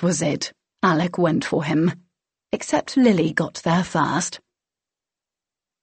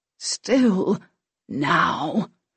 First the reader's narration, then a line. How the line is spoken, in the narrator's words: the pompous prick whispered